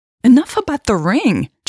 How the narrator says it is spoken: Jade snapped, growing annoyed

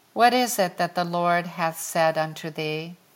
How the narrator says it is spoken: asked Eli

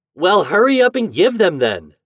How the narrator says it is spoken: shouted Toad

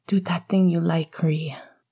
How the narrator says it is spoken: Sirius panted

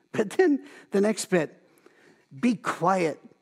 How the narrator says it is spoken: Jesus said sternly

